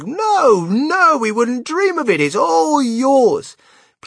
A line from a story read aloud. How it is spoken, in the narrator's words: the others all cried